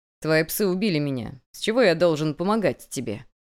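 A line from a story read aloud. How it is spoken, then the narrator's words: Laughing. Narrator (Russian): Я рассмеялся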